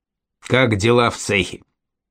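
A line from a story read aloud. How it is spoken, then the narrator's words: Perfunctory question with snort. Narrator (Russian): Глебовский хмыкнул, спросил дежурно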